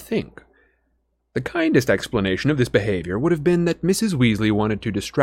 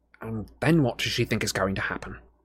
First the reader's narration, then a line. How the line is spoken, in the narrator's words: Harry muttered